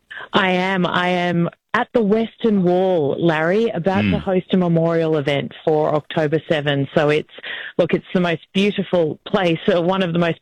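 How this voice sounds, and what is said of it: Distinctive Australian accent. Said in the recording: “I can't quite pick up the accent. ... it's very distinctive ... Australia is the New Jersey of the Southern Hemisphere”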